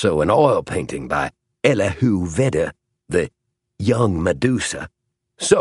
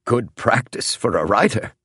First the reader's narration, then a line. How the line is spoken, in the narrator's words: chuckled Howells